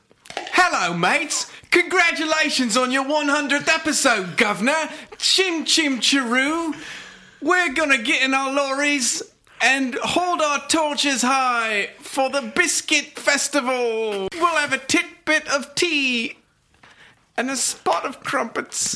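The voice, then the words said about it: Exaggerated put-on British accent. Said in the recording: “does a spot on. ... I do amazing British accent. ... British accent”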